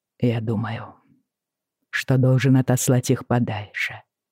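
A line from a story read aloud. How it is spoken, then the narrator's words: Quiet. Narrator (Russian): сказал тихо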